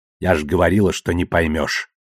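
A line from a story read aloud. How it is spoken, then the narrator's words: Cold and curt. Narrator (Russian): холодно отрезала Авасарала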